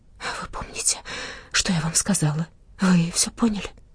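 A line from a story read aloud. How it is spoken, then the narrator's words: Female whisper. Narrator (Russian): она шепнула мне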